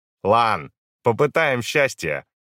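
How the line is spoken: Snorting. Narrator (Russian): хмыкнул Хо Ян

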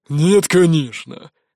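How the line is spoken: Snort. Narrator (Russian): хмыкнул тот

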